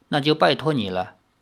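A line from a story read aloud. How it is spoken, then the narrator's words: Calm, hiding worry. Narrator (Chinese): 南蛮王也将忧心隐藏住，不显露出来，淡淡的说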